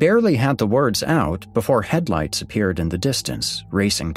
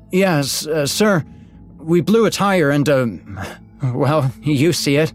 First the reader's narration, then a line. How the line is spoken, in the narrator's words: Matt said, his voice shaking